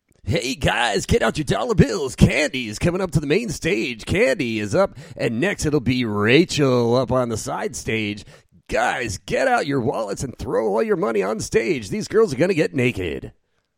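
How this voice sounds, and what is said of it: Strip club DJ announcer voice. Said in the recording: “The stripper DJ voice... That's my stripper guy voice.”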